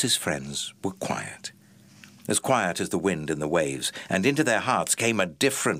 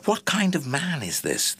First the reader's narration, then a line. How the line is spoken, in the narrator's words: they asked themselves anxiously